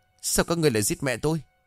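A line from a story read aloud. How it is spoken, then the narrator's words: Angry. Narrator (Vietnamese): Dũng tức giận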